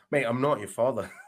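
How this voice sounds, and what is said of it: Irish-accented Darth Vader voice. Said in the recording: “do an impression of an Irish Darth Vader”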